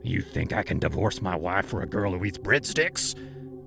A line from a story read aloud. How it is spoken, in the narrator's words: he growled